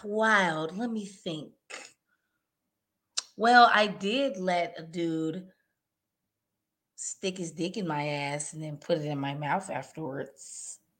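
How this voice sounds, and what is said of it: Imitates another person's voice. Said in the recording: “I'm about to do my best Elaine impression.”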